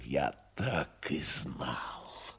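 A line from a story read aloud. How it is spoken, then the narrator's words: Angry hiss. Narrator (Russian): не прошептал, а прошипел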